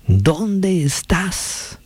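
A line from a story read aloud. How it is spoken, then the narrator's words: Shouted again. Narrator (Spanish): gritó otra vez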